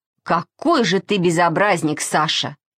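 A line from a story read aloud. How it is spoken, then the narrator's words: Plain. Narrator (Russian): сказала она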